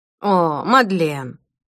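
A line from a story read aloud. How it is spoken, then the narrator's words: Sighing. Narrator (Russian): вздохнул Эд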